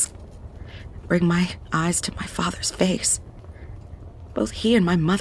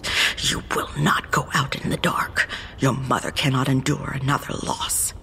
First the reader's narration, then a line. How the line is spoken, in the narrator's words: growled